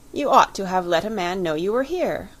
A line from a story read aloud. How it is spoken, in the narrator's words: he cried